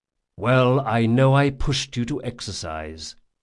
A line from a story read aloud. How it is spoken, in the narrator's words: said Jean